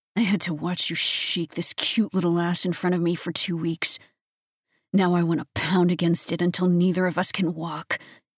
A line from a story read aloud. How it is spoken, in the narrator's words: he growled softly